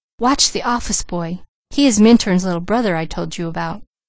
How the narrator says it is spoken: Douglas whispered

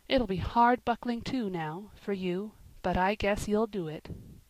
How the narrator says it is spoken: whispered Ben

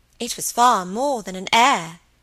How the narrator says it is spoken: said Dolly solemnly

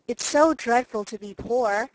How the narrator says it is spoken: sighed Meg

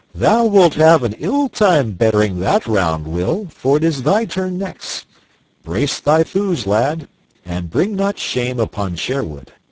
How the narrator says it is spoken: Merry Robin laughed, and quoth he

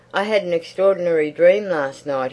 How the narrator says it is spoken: he shouted

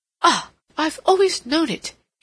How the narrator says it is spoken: he cried

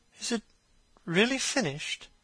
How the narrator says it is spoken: murmured

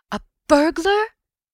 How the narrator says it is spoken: I gasped

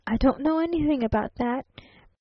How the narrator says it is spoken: persisted the traveling salesman

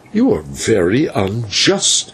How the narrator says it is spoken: he broke in angrily

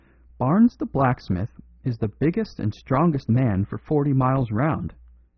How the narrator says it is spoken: said the clergyman sternly

